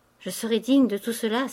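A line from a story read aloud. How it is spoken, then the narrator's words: Exclaimed. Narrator (French): s'écria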